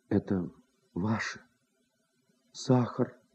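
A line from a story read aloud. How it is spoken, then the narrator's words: Quiet, holding back tears. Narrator (Russian): тихо сказала, чтобы скрыть слезы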